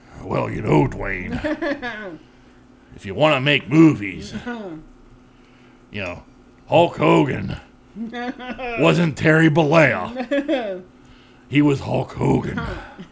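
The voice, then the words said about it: Gruff, low impression of another's voice. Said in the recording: “you like my McMahon impression? ... It's good, but it's a little too gruff. ... He's not that gruff. ... He's not like down here.”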